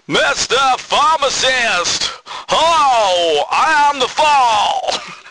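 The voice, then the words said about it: Imitates a shouting, drunken-sounding singer. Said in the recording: “like some drunken old man from the local pub had come on and was ruining it by just shouting stuff ... my Marky Smith impression.”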